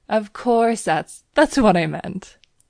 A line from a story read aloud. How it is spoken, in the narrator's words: he laughed